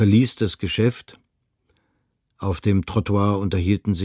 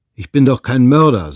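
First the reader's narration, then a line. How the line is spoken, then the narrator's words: Said loudly. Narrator (German): sagte er laut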